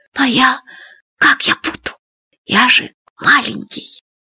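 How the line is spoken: Whisper. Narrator (Russian): шепотом сказал Фадейка

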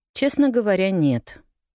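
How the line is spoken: Dry reply. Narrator (Russian): сухо ответила миссис Кэррью

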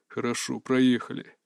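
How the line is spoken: Father's gruff mutter. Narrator (Russian): буркнул отец

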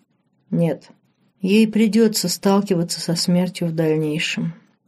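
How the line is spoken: Quiet, stubborn. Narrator (Russian): тихо, но упрямо повторил Диего

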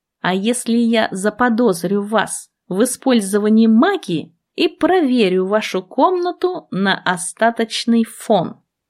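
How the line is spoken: Plain. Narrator (Russian): спросил он

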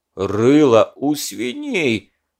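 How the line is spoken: Angry roar. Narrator (Russian): багровея на глазах, проревел Садко

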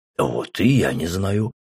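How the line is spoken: Skeptical grunt. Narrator (Russian): хмыкнул Рэм

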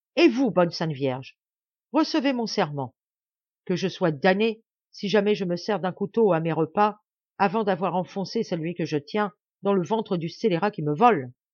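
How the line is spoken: Ringing voice. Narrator (French): prononça-t-il d'une voix éclatante

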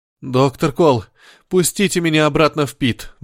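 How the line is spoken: Pleading. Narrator (Russian): взмолился он

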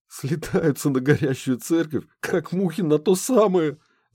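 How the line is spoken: Professor guffawing. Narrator (Russian): захохотал профессор

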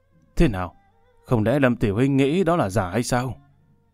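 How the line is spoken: Smiling. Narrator (Vietnamese): Từ Vị mỉm cười

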